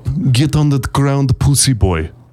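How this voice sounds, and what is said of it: Bad put-on Russian accent. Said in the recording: “These are the worst Russian accents.”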